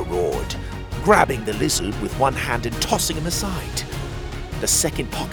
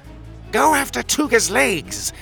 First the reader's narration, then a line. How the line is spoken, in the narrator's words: he shrieked